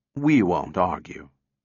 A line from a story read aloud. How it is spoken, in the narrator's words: replied Cutie soothingly